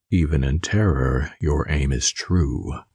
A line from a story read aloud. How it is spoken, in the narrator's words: he said in a calm, ethereal voice